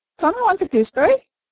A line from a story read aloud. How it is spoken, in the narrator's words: shrieked the macaw